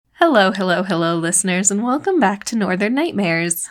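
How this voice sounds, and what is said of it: Shaky, slightly nasal voice. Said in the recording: “my voice is a little bit shaky today, but at least it sounds better. It sounds a little less nasally.”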